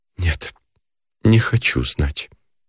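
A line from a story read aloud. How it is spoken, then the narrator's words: Whisper. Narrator (Russian): проговорила шепотом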